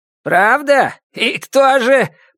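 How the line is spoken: Shouting after someone. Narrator (Russian): прокричала Пат ей вслед

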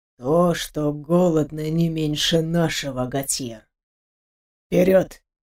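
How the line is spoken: Dull, muffled curt. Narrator (Russian): Глухо кинул Ставров

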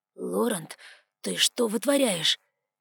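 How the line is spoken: Whispered. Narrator (Russian): прошептал Альдейн

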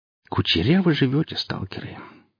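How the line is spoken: Sighing. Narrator (Russian): вздохнул Нюхель еще раз

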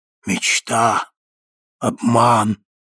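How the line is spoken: Hollow ghostly voice. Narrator (Russian): повторило привидение глухим голосом

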